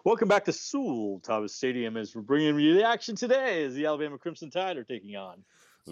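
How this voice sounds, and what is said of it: Announcer-style radio voice. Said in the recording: “I used to always do my radio voice when I came back.”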